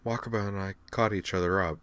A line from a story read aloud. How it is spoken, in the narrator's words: explained quietly